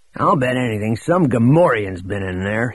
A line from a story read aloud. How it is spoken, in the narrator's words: he growled to Droma